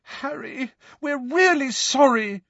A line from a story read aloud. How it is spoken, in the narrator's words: said Hermione desperately, her eyes now sparkling with tears